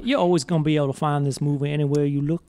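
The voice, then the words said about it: Put-on Southern American accent. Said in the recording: “speak like a Southern gentleman all night ... This is better than Nick Cage's accent.”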